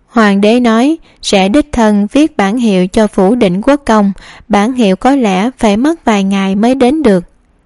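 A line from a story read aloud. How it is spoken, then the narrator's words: Smiling. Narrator (Vietnamese): hắn mỉm cười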